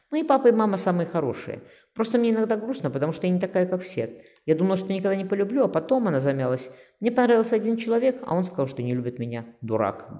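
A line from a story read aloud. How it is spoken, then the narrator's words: Grumbling. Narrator (Russian): буркнул Никита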